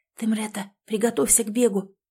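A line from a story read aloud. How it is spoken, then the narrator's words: Whispered. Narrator (Russian): прошептала Элизабет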